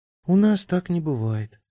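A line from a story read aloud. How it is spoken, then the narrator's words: Sad. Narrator (Russian): печально сказала Лоскутик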